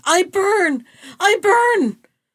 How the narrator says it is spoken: the princess shrieked

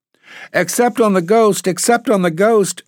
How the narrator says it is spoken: shrieked the twins

